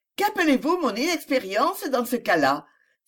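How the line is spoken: Angry exclamation. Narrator (French): s'écria-t-elle avec un retour de colère

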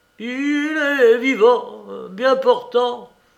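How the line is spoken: Stammered through bloody hiccup. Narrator (French): bégaya le bandit dans un hoquet sanglant où il cracha 2 de ses dents cassées

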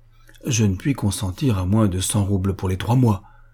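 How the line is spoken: Polite but resolute. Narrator (French): dit Boris d'un ton poli mais résolu

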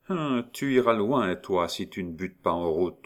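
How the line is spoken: Grumbled. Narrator (French): grommela Languedoc

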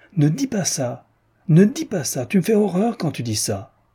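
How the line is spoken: Shouting. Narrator (French): Elle cria

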